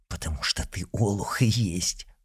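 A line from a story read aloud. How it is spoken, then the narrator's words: Hiss. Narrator (Russian): прошипел Изотов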